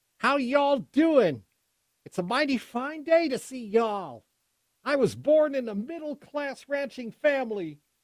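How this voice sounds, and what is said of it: Kamala Harris impression, folksy Western twang. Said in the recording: “probably some sort of cowboy, Wild West accent, or old Western gambler accent, right? I mean, did you see the video when she was in Texas?”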